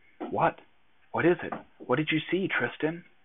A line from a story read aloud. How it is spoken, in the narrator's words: whispered